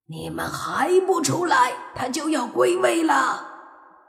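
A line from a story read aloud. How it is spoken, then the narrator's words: Shouting. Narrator (Chinese): 大喊声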